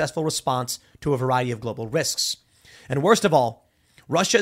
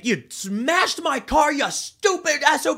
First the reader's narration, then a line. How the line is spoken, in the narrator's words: He's yelling